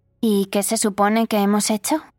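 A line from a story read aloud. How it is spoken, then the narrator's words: Provocative question. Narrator (Spanish): preguntó Karina con tono provocador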